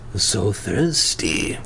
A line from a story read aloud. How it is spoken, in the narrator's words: he muttered